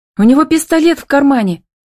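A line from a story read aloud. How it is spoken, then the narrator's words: Cried out. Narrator (Russian): вскрикнула Милочка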